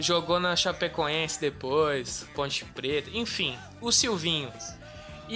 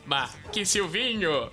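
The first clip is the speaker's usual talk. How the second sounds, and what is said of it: Imitates another person's voice. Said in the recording (Portuguese): “serei a voz do Silvinho ... a imitação é horrível”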